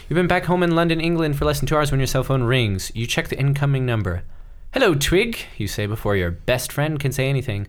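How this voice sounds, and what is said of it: Put-on standard British accent. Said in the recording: “if they're English, I gotta do the accent. ... I'm going to go with a standard British. It's not RP. It's not Cockney.”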